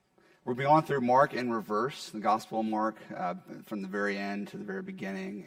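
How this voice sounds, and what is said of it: Hoarse, partly lost voice. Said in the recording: “my asthma got bad, and so I lost my voice. It's here a little bit”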